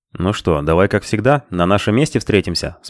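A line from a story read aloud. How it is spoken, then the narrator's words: Plain. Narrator (Russian): спросил он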